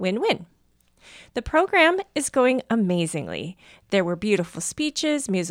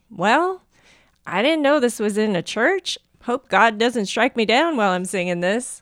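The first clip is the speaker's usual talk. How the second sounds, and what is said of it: Put-on American southern accent. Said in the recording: “I don't know why I just said that with a southern accent.”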